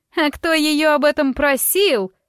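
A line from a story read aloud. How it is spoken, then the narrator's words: Shrill shriek. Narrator (Russian): взвизгнула госпожа Норгентаундон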